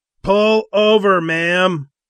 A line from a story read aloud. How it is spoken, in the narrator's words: one of the bikers yelled